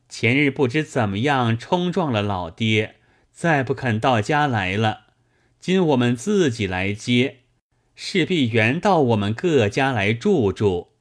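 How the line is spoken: Group, laughing. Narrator (Chinese): 个个多搓得笑起，说道

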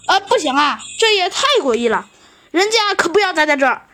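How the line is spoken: Loud, uneasy clamoring. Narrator (Chinese): 弗兰熊不安分了，他大声地嚷嚷道

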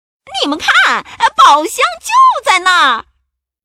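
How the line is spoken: Shouting. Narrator (Chinese): 花衣裳佩格大叫起来

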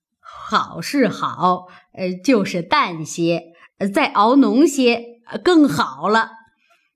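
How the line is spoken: Laughing. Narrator (Chinese): 笑道

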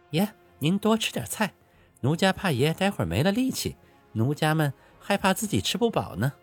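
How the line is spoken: Coquettish laughing. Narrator (Chinese): 娇笑道

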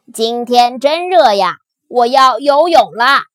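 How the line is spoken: Loud shout. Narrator (Chinese): 大声叫道

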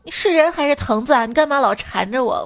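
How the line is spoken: Sudden loud. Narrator (Chinese): 那二货突然……大声说

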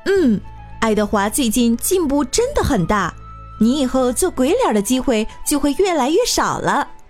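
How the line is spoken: Teacher speaking with smile. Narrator (Chinese): 白老师微笑着说

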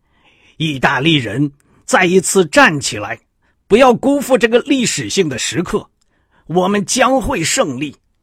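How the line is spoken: Roaring. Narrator (Chinese): 他吼出了最后几句话

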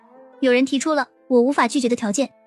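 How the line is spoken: Smiling. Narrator (Chinese): 白灵笑着说

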